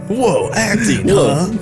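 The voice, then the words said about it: Solid Snake character voice impression. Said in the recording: “my Solid Snake impression”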